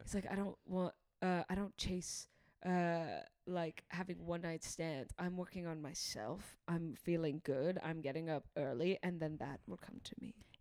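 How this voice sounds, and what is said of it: Put-on British accent. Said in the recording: “I'm doing an impression of one guy. One guy's British.”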